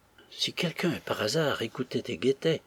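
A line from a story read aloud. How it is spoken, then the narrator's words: Murmured. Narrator (French): murmura Florence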